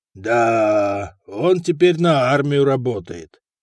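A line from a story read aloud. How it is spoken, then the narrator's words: Envious drawl. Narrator (Russian): завистливо протянул Ницетий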